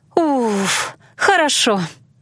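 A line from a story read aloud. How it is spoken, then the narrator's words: Relieved sigh. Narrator (Russian): Иланна облегченно вздохнула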